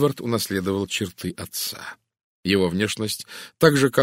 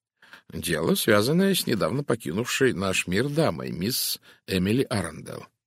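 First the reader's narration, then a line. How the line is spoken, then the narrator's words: Plain. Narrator (Russian): ответил Пуаро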